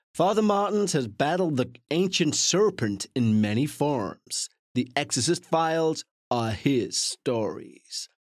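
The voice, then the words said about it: Deliberately bad put-on American accent. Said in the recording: “my shockingly bad American accent”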